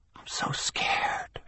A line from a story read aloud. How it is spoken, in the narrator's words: she whispered